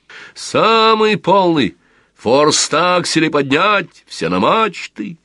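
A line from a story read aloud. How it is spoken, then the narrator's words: Shouted aside. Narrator (Russian): он что-то крикнул в сторону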